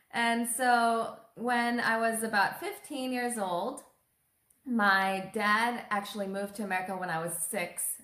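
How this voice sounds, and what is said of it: American accent. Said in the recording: “I have an American accent today”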